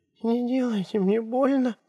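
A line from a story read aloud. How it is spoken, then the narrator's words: Frightened young woman. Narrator (Russian): сказала девушка испуганно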